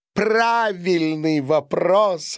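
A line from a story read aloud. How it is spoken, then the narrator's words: Laughing. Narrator (Russian): рассмеялась она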